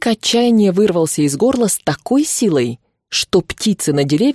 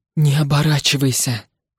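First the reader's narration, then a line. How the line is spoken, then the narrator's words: Whispered to himself. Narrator (Russian): шептал Ивар самому себе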